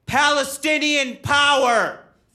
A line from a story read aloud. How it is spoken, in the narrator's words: a voice in the back of the room yell